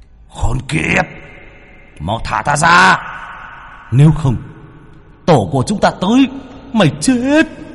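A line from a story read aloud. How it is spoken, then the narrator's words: Roaring monstrous threat. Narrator (Vietnamese): Yêu ma trong tháp gầm thét lên hăm dọa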